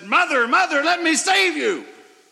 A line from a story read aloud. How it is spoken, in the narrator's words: screamed when he came out of the water and said